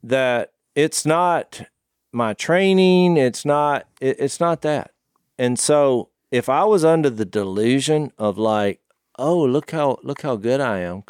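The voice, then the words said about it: Noticeable regional accent. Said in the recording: “you can hear 5 seconds into my accent, which noticeably stood out when I was in California”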